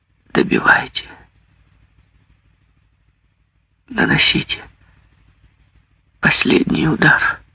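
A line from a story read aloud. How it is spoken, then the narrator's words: Barely audible whisper. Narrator (Russian): Она чуть слышно прошептала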